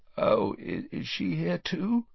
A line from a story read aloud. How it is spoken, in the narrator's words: Harry croaked